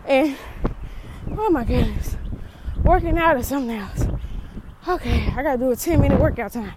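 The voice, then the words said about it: Out of breath, panting speech. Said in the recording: “I'm out of breath. ... your girl is out of breath.”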